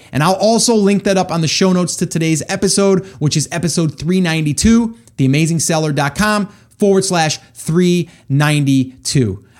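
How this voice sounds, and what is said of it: Excited, energetic voice. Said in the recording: “I am super pumped up about this stuff. You guys can probably hear it in my voice. I get excited”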